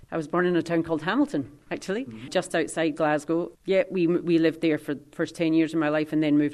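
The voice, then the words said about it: Scottish accent. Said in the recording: “You mentioned leaving Scotland ... I have Scottish heritage, so I recognise the accent straight away”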